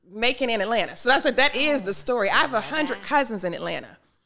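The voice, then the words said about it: Southern American accent with twang. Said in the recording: “So that's the Southern accent. ... You got a good twang.”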